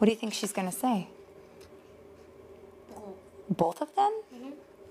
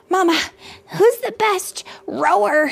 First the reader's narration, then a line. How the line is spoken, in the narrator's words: Julian gasped